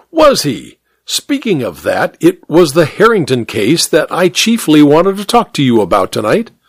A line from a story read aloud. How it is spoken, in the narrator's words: Hare exclaimed